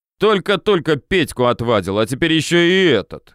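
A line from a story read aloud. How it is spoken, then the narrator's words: Sailor growling. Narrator (Russian): рыкнул морячок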